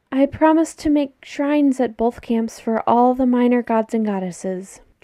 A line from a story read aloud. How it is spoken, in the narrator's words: Jason says mournfully